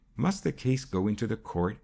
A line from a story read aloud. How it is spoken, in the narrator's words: asked the girl anxiously